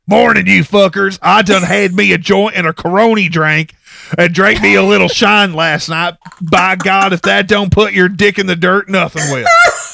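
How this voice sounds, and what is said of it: Imitates another person's voice. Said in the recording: “I'm going to do the voice.”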